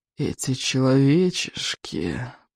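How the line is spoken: Hissing. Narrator (Russian): прошипел он

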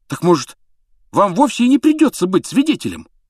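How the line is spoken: Fervent exclamation. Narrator (Russian): с жаром воскликнул Рон

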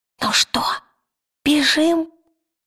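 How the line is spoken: Whispered. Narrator (Russian): шепнул он

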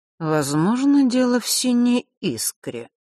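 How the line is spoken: Drawling, to himself. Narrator (Russian): протянул Нортон-старший как бы для себя

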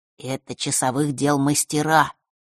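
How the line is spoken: Whispered introduction. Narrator (Russian): шепотом представил их Маар

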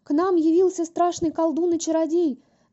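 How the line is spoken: Wolf wailing yell. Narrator (Russian): завопил волк

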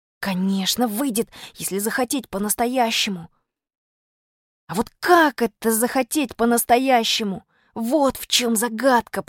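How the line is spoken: Whisper. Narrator (Russian): прошептал я

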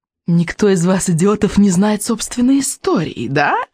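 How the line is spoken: Purring witch. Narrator (Russian): промурлыкала ведьма

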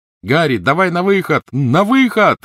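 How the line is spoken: Shouted. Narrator (Russian): крикнул Рон

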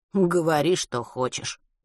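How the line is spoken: Tired reply. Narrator (Russian): устало отозвался Матвей

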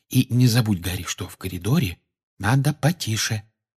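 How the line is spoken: Whispering reminder. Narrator (Russian): шепотом напомнила ему Гермиона

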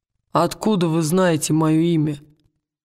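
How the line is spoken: Rough. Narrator (Russian): грубо спросил он

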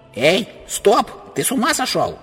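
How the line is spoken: Uncle shouting. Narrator (Russian): кричал дядя

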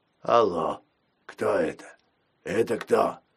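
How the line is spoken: Creaky voice. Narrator (Russian): проскрипел

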